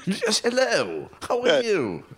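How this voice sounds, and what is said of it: Put-on English accent. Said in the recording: “I bet he speaks in an English accent.”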